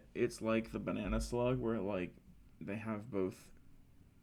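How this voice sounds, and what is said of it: Usual voice. Nothing is said of it.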